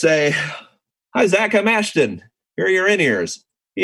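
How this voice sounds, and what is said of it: Usual voice. Nothing is said of it.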